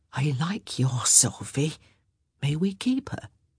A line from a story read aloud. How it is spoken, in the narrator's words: Benedict choked